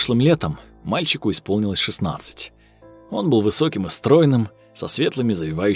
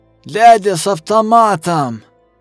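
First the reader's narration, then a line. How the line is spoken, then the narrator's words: Clipped rough voice. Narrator (Russian): сказал Костя своим отрывистым шершавым голосом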